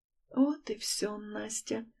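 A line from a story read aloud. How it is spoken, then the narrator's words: Sad sigh. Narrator (Russian): грустно вздыхаю я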